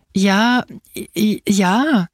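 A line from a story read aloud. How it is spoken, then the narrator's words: Stammering. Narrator (German): stammelte Angelo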